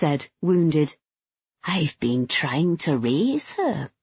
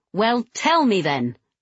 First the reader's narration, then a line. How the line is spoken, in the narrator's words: I snapped